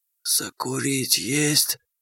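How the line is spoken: Zombie's hissing whisper. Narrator (Russian): зомби свистящим шепотом спросил

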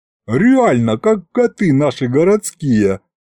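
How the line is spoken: Giggling. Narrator (Russian): хихикнул Аристофан

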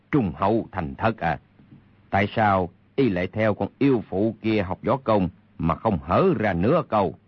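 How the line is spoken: Cold sneering laugh. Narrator (Vietnamese): Kha Trấn Ác cười nhạt nói

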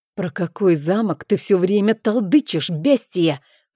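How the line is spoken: Displeased growl. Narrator (Russian): прорычал недовольно барон

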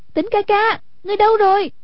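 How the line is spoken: Worried call. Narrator (Vietnamese): Hoàng Dung trong lòng lo lắng, kêu lên

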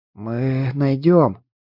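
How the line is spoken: Hoarse, pained rasp. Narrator (Russian): прохрипела она, но теперь уже не от покалеченного костром горла, а из-за боли сковавшей тело

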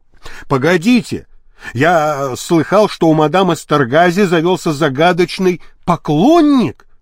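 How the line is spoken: Exclaiming. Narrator (Russian): воскликнул Маркус

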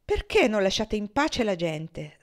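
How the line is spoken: Angry outburst. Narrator (Italian): sbottò

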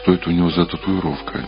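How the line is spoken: Quiet question. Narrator (Russian): тихо спросил Сэм

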